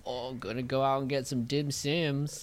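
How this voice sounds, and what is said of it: Weak attempt at Australian accent. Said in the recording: “Oh, I can't even do an Aussie accent... Can't do Australian accent.”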